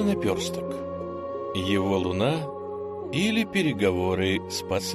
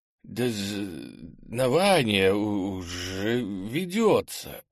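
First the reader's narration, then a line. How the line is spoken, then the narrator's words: Stuttering mumble. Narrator (Russian): заикаясь, промямлил он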